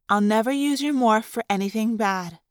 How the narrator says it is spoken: Cassie said solemnly

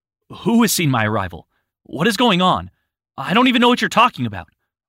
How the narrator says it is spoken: Andres exclaimed

